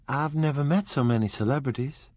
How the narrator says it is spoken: Daisy exclaimed

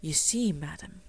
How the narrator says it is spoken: he would explain in his low, respectful tones

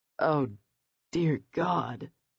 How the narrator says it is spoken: he groaned

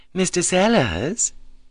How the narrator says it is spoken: said smoothly

